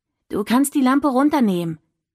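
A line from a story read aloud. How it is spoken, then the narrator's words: Calling out. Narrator (German): rief sie dem Licht entgegen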